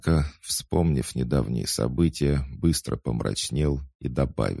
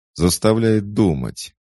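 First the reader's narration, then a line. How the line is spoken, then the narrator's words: Cheerful chuckle. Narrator (Russian): весело хохотнул Джо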